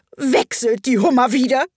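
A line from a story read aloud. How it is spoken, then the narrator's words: Griffin howling, raised voice. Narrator (German): heulte der Greif mit erhobener Stimme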